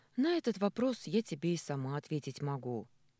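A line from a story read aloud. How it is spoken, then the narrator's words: Sighing. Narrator (Russian): вздохнула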